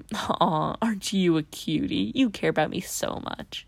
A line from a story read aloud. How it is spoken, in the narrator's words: you say while giggling